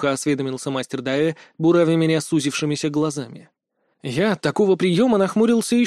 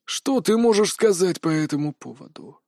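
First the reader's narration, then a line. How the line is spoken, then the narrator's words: Menacing question. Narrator (Russian): грозно осведомился мастер Дайе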